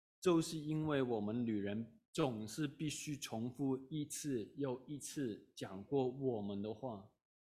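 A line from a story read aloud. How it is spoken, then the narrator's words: Calm, flat. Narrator (Chinese): 他的太太 淡淡的对她丈夫说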